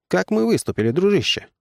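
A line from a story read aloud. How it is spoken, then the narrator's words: Plain, younger brother. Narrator (Russian): спросил младший брат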